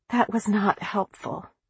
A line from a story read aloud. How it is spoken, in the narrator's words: she whispered